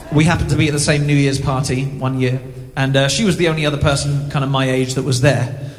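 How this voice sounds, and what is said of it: English accent. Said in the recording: “he doesn't sound Canadian... I'm from England originally”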